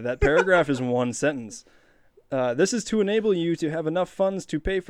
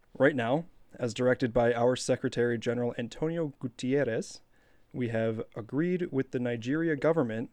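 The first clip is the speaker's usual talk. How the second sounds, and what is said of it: Put-on accent reading an email. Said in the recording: “Nice accent.”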